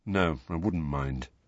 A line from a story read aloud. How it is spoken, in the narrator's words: Harry mumbled